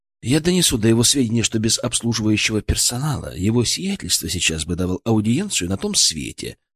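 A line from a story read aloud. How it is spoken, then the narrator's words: Completely serious. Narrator (Russian): заверил я абсолютно серьезным тоном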